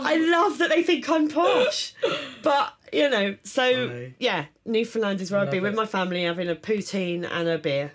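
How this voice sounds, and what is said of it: Whiny Estuary English accent. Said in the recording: “I've got a proper, like, estuary, horrible, whining.”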